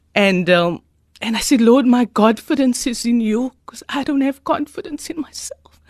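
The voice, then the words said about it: Emotional, choked-up speech. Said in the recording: “I'm getting emotional.”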